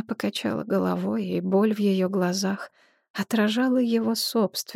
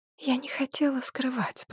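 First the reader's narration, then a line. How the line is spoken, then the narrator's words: Whisper, priestess. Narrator (Russian): прошептала жрица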